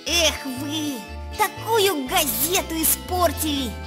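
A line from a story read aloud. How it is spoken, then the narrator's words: Hissed. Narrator (Russian): Эра Кузякина, главный редактор стенгазеты, прошипела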